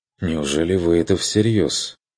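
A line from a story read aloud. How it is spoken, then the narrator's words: Uncertain, smiling remark. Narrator (Russian): Проронил Курт, неуверенно улыбнувшись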